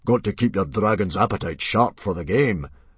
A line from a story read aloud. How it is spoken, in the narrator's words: boomed Stoic the Vast, who was in an excellent mood